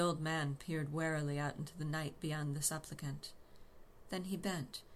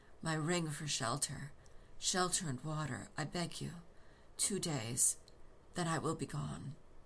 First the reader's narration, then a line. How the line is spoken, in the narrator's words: breathed